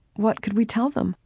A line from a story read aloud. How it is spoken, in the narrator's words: Laura quavered